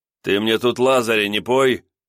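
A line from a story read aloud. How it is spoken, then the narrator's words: Rough rebuke. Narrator (Russian): грубо осадил его Орлов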